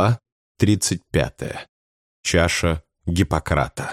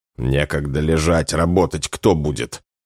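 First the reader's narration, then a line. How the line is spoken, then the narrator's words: Snorting. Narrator (Russian): фыркнул Афанасьев с усилием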